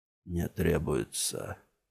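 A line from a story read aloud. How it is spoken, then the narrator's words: Hoarse, straining. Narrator (Russian): прохрипел Джамил, пытаясь подняться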